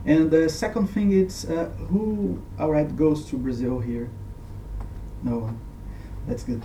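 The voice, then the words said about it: Non-native English accent. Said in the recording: “my accent and my lack of skills in English and English language”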